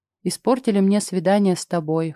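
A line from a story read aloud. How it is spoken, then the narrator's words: Smirking snort. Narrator (Russian): хмыкнул Клим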